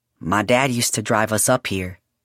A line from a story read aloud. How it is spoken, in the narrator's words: Julian said quietly